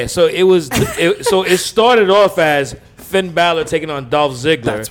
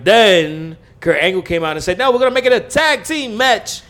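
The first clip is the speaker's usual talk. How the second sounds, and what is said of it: Teddy Long impression. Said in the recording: “That was in my Teddy Long voice.”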